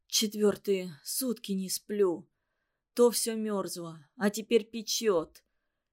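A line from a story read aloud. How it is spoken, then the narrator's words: Rustling broken whisper. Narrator (Russian): шелестел в комнате прерывистый шепот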